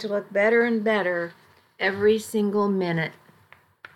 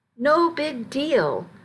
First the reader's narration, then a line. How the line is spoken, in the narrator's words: I said firmly